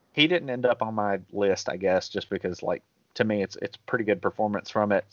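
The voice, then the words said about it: Native Southern redneck accent. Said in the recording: “the best redneck of the movie. That is an accent that I am very familiar with... One might even say your native accent... my homegrown accent”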